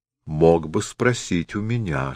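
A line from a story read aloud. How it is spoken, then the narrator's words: Plain. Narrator (Russian): сказал тот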